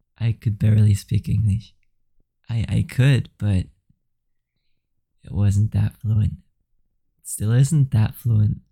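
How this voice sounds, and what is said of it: Flemish-accented English. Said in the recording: “It's definitely with an accent still. My good old Flemish accent.”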